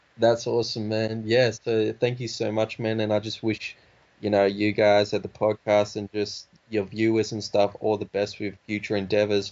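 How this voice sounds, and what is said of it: Australian accent. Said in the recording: “a lot of people say it's kind of Australian ... I can detect the Australian accent for sure, but I can understand you.”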